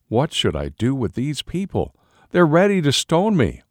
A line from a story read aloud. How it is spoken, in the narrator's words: Then Moses cried out to the Lord